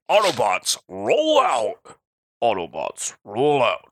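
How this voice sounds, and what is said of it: Imitates Optimus Prime's robot voice. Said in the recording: “I can do an Optimus Prime. ... Oh, that's pretty good. That's not bad.”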